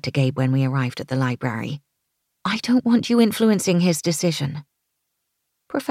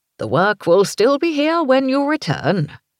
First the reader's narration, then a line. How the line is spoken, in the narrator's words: he said cheerfully